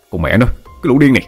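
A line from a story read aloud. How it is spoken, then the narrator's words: Angry loud shout. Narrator (Vietnamese): Hùng tức giận, hét lớn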